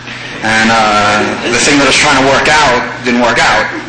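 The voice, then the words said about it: New York accent. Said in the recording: “I found myself back in New York, where I'm from. Not that you could tell by my accent.”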